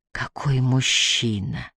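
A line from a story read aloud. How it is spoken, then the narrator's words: Whispering. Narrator (Russian): прошептала Юн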